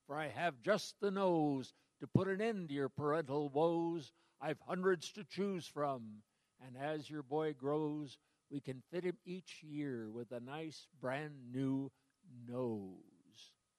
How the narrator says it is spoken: cried McSneed

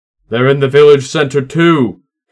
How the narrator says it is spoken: Katsuo shouted back

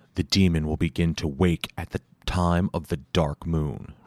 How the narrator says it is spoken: Ryu said

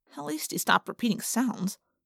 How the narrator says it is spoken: I muttered

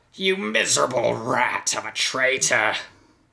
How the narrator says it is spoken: Kevin snarled into the night

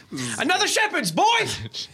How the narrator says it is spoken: Hilda shouts back into the kitchen

